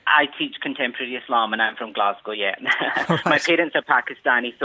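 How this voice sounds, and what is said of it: Scottish accent. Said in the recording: “that's obviously a Scottish accent I'm hearing there”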